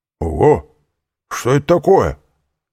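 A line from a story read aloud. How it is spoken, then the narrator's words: Exclaimed. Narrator (Russian): воскликнул жандарм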